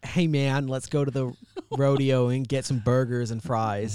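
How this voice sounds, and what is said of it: Poor put-on American accent. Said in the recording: “I'm really bad at accents ... Give us your best American ... that one really wasn't like a southern-ish kind of like country accent”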